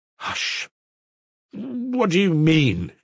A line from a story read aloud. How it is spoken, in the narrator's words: he faltered helplessly